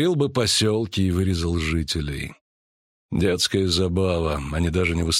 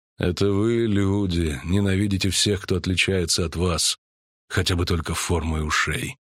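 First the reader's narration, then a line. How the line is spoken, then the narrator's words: Calm elf. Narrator (Russian): спокойно продолжал эльф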